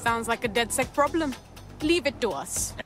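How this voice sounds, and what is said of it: Indian-sounding accent, odd voice acting. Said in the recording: “What was that voice acting? I know she's supposed to be, like, she sounds like she's Indian. But it sounds... Oh, man, that sounds so weird.”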